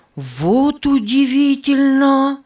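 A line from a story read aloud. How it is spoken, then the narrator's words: Loud. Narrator (Russian): громко сказал Нева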